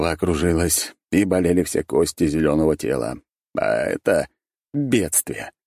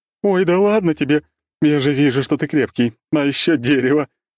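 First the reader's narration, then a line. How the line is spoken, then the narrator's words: Laughing loudly. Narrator (Russian): захохотала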